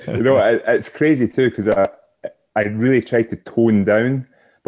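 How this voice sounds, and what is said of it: Scottish accent. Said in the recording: “the heavy accent there ... your accent now sounds normal”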